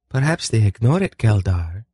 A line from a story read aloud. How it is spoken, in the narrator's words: Velvet said sweetly